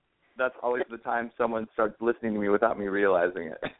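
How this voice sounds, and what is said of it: Slightly hoarse voice. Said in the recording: “I've got a little bit of a hoarse voice today”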